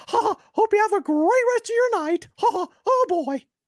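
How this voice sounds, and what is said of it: High-pitched Mickey Mouse cartoon voice. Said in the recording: “Can you do a Mickey impression for Josie? ... My voice is a little hoarse.”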